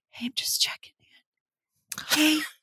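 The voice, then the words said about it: Whispering. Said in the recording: “whispering ... I'm definitely going to start leaving you voice messages where I go”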